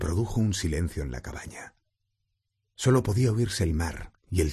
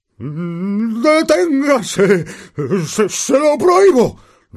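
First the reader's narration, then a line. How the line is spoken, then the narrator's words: Terrified roar. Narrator (Spanish): rugió tío Vernon aterrado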